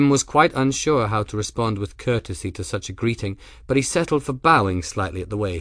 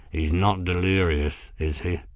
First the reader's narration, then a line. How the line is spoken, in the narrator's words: mumbled out of the corner of his mouth